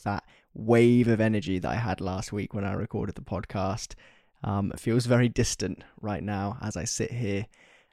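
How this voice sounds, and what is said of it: Tired, low-energy voice. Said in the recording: “You can probably tell in my voice that I am definitely more tired this week than I was last week.”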